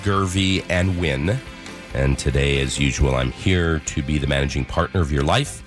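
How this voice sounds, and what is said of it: Slightly raspy voice. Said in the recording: “it's a little raspy today. I've, you know, been a little bit under the weather. I sound kind of sexy.”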